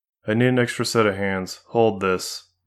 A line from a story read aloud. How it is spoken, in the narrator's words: Marie said flatly